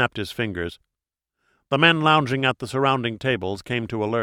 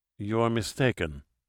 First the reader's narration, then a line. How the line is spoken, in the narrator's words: Pedrales said coldly